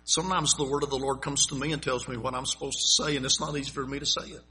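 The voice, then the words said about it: Southern US accent. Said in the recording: “you can tell by my voice where I grew up ... you grew up down in South Carolina too, in North Carolina”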